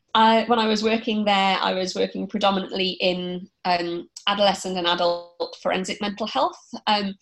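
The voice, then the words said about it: English accent. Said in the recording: “we can detect an English accent there ... I trained in the UK. I think my accent probably gives it away.”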